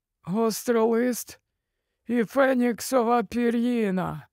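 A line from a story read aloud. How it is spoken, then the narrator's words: Trembling voice. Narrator (Ukrainian): промовляв Олівандер тремтливим голосом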